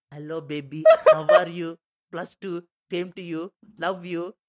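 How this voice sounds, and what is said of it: Put-on Indian accent. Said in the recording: “why your brother had an Indian accent.”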